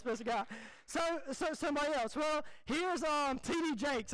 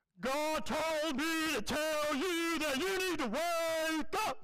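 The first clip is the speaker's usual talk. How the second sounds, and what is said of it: Imitates a preacher's voice. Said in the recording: “this is my best impersonation of him”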